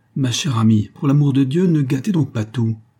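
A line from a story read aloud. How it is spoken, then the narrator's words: Exclamation. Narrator (French): s'écria-t-il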